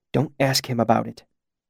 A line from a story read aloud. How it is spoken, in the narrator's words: he hissed urgently